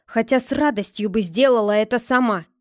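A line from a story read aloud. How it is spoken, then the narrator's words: Gritted-teeth hiss. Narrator (Russian): сквозь зубы процедила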